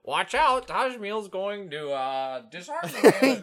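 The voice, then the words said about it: Imitates a squawking bird's voice. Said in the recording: “that's a good impersonation”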